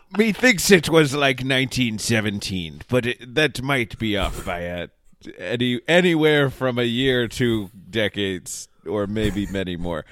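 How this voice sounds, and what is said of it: Put-on pirate accent. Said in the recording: “I'm losing the pirate accent here ... this would have been great in the pirate accent”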